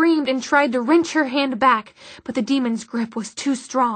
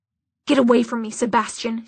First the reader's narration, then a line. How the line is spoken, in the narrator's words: she hissed